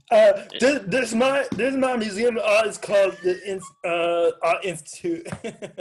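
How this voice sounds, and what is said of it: Imitates another person's voice. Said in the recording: “that was my impression of Dusty.”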